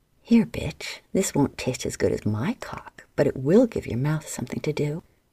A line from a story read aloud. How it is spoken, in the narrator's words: she said with a laugh